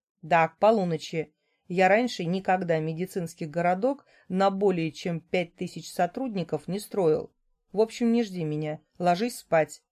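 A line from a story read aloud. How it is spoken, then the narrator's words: Stern man. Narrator (Russian): строго проговаривает мужчина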